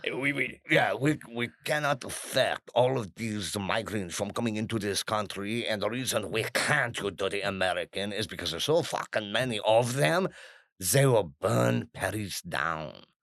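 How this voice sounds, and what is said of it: Put-on French accent. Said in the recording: “I'm not going to do the accent because it'll just irritate them... Actually, I'm going to do it.”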